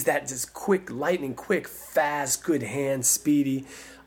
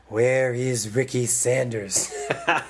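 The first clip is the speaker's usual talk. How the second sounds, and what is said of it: Ronald Reagan impression. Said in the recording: “my old Ronald Reagan impersonation”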